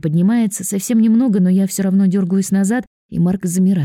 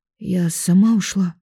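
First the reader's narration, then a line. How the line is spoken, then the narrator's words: Quiet, fearful. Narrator (Russian): говорю тихо, боясь, что Марк нападет на Никиту из-за меня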